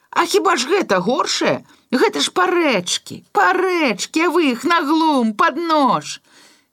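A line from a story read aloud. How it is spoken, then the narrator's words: Shouting again. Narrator (Belarusian): зноў крыкнуў бульдазерыст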